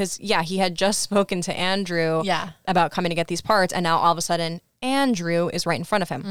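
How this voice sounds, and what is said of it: Usual voice. Nothing is said of it.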